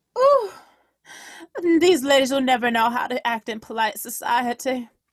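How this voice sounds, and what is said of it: Fake Southern accent. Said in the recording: “fake-ass southern accent”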